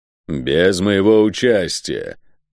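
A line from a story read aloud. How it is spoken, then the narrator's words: Growling. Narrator (Russian): прорычал северянин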